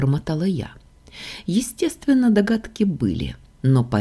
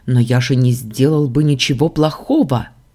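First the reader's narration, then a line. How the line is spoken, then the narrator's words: Exclaiming. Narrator (Russian): воскликнул отец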